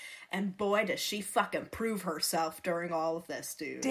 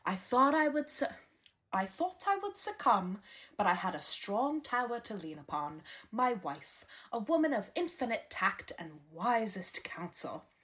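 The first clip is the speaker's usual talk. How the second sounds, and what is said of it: Reading a quote in put-on accent. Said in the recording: “my fucking obviously flawless accent ... It was delivered so flawlessly.”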